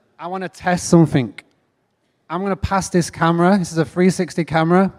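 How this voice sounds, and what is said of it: English accent. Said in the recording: “as you can tell from my accent, I am not from around here ... I've got to take that back to England with me.”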